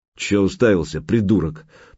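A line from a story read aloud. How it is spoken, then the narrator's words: Grumbling. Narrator (Russian): проворчал Гучко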